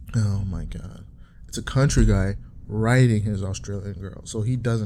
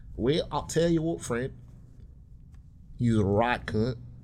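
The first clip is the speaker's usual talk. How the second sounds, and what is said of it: Bad put-on Australian accent. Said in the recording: “The worst Australian accent. ... Bro, I suck at accents.”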